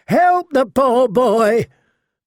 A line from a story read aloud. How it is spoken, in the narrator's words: the Queen of Thorns screeched in a voice 10 times her size